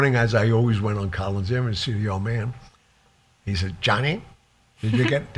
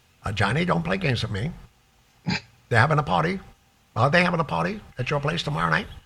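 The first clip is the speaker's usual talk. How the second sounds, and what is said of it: Imitates another person's voice. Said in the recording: “You should be an actor. ... That's a great impression.”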